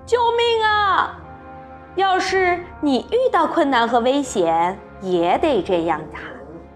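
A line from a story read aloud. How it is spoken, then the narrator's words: Sudden loud shouting. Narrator (Chinese): 可怜的男孩突然大喊大叫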